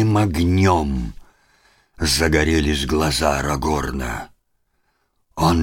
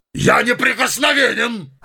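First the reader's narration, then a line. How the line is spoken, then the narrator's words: Shout. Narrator (Russian): закричал он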